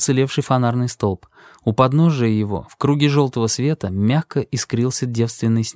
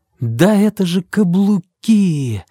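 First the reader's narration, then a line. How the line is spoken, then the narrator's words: Exclaiming. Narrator (Russian): воскликнул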